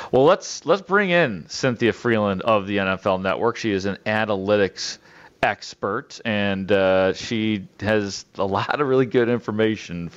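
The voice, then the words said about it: Midwestern American accent. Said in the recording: “It is so great to hear a Midwestern accent.”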